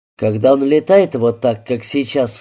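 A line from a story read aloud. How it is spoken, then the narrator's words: Plain. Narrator (Russian): сказал я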